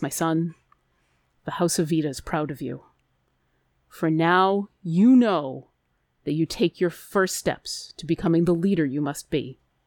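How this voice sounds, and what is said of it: Gruff fatherly character voice. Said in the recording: “in a gruff voice,”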